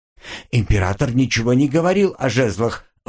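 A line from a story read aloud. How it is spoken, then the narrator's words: Strained, forced words. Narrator (Russian): выдавил из себя казначей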